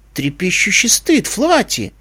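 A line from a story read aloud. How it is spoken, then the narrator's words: Puzzled exclamation. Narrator (Russian): озадаченно воскликнул Дэша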